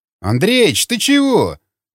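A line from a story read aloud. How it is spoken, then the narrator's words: Exclaiming. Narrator (Russian): воскликнул Ежов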